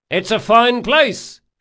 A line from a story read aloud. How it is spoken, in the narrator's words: shouted Locke